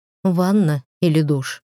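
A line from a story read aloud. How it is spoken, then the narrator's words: Gentle question. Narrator (Russian): мягко спросили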